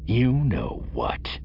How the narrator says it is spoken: Simacro growled

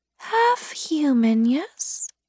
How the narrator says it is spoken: She whispered

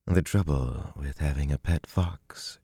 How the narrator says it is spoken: she murmured

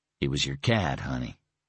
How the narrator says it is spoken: he said softly

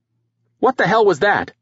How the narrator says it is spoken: someone shouted

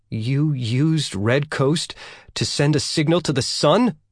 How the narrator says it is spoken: Yang asked anxiously

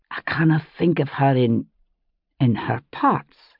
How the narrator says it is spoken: he said, his voice a little husky

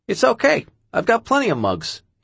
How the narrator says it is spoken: he said in his famous squeaky voice

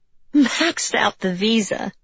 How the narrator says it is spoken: Linda McCullough had said with a laugh

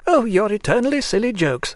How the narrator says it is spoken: put in laughingly another lady

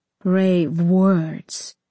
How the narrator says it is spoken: he rumbled

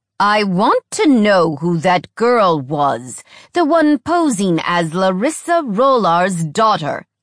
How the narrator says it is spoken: he spat

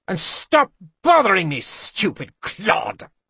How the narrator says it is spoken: she snapped

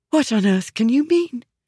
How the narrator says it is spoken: She breathed, panic intensifying

